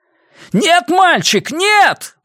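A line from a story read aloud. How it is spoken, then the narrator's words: Soldier shouting from afar. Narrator (Russian): вновь прокричал солдат по другую сторону купола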